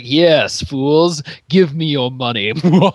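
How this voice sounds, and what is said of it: Mustache-twirling villain voice. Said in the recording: “twirling a mustache ... I'm enjoying my impersonations.”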